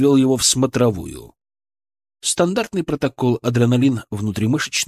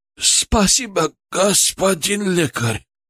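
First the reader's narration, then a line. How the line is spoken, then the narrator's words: Hoarse wheeze. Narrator (Russian): прохрипел он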